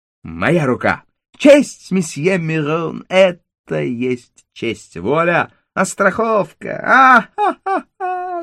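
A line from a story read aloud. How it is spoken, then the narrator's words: Theatrical laughter. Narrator (Russian): Он рассмеялся, как актер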